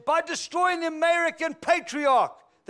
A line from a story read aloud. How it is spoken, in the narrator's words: cried out exuberantly